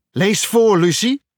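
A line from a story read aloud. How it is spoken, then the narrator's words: Shouted. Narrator (Dutch): riep Irrie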